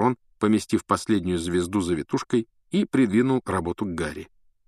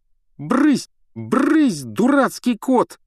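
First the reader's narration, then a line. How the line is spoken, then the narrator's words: Yell. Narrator (Russian): завопил Рон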